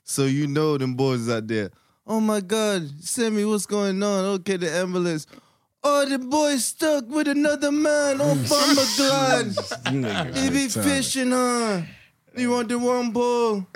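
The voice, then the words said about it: Bad put-on Jamaican accent. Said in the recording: “It's worst accent ever. ... Sorry, all our Jamaican listeners.”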